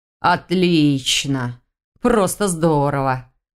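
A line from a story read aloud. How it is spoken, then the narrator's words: Grumbling. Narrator (Russian): проворчал Ваня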